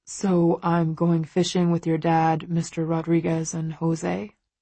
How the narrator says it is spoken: he asks

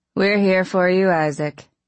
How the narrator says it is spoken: we all, in a monotone, said

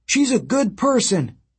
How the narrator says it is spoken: Frank stood up for her in Portland, shouting

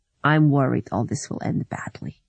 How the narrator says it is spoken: he said

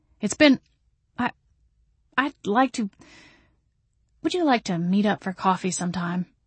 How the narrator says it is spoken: Adam blurted

